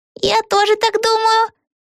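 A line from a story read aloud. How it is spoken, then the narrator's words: Squeak. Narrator (Russian): пискнула Пегги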